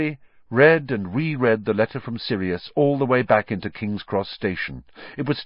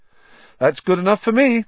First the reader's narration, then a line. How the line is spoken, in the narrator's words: said Ron, happily